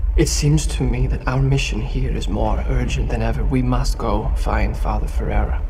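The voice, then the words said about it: Unconvincing put-on accent. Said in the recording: “Garfield's accent isn't the most convincing”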